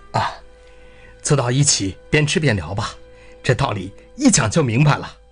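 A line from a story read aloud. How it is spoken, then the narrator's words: Laughing. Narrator (Chinese): 笑罗说道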